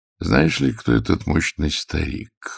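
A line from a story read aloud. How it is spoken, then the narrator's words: Quiet question. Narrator (Russian): негромко спросил Нестор Васильевич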